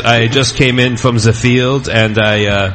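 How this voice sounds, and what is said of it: Put-on French-German accent. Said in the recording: “that's my French-German accent.”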